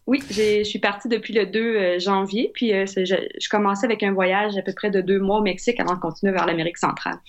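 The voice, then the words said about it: Quebec French accent. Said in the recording (French): “ce petit accent nous rappelle que tu es du Québec”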